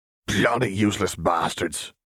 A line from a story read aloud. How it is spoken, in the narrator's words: Moody grumbled